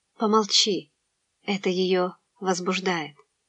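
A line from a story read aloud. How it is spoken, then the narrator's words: Whisper in the ear. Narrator (Russian): Рисетта прошептала на ухо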